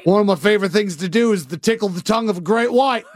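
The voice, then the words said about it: Put-on Australian accent. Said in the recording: “your Australian accent's gotten a lot better”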